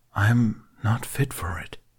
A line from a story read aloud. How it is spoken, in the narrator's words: whispered